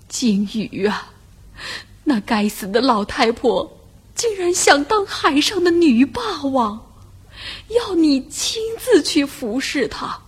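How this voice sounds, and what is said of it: Trembling old man's voice. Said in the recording (Chinese): “老头子用发抖的声音说”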